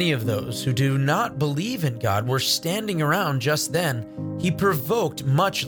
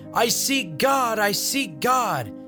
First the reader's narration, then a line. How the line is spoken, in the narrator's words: that madman cried incessantly